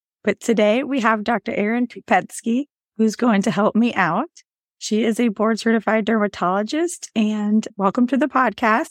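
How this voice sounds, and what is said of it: Hoarse, nearly lost voice. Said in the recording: “I apologize for my voice today. It's gone.”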